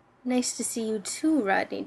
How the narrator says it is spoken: John croaked

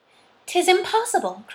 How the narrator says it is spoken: cried Eleanor

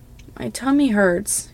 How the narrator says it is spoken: Kii whimpers

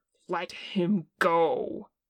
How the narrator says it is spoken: Kim snarled

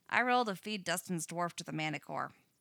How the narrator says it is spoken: Max says flatly

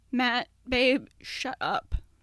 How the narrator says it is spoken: Dan said shakily

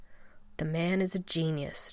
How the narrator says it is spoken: John rasped

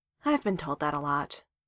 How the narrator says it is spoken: Darcy sighed

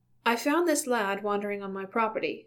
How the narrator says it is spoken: Bilbo said quickly

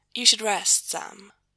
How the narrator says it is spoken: Gabriel says, gently

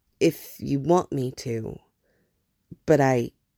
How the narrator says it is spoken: offered unsteadily

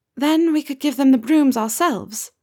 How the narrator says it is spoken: Nymph says wistfully

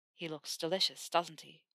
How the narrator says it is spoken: Theo murmured against her ear

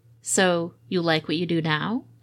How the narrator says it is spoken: Ed asked

